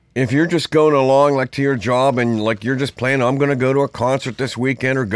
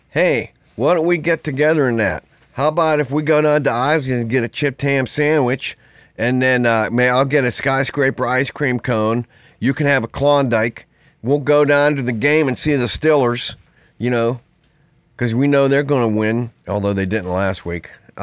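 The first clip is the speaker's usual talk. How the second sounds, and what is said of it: Put-on Pittsburgh accent. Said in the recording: “A real Pittsburgh accent is like”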